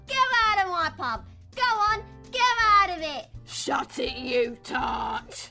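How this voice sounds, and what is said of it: Put-on London accent. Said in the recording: “London is the accent that most people outside of Britain can recognise. You know, that classic lock, stock and two smoking barrels.”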